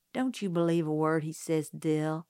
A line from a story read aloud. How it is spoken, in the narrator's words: I said